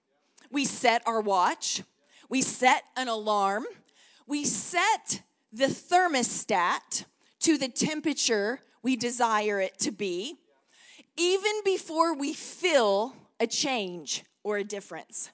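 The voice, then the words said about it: Texan accent. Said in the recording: “with my Texan accent”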